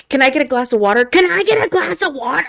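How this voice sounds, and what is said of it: Loud screaming child's voice. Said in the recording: “even in their normal speaking voice ... she's screaming everything ... The way you did the voice”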